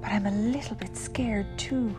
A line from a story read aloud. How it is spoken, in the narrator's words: she whispered